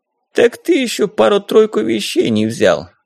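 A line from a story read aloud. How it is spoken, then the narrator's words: Old man sighing. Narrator (Russian): старик вздохнул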